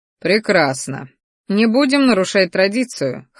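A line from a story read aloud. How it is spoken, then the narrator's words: Snort. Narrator (Russian): хмыкнул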